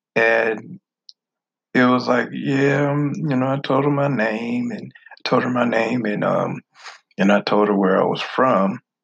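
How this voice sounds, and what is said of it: Northern US accent. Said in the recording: “you talk funny. You talk with an accent. ... I just talk like I'm from the North”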